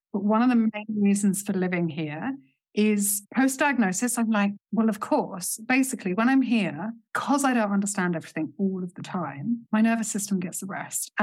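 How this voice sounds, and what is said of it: English accent. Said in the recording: “I hear an English accent ... So my accent is English”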